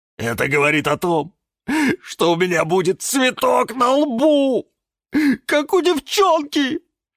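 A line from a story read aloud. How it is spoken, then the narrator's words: Sobbing. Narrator (Russian): Не выдержал и всхлипнул кактус Кирилл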